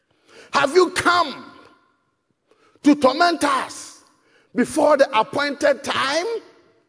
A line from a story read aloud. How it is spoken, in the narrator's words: They shouted